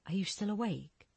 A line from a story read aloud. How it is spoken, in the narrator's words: Julia whispered through the door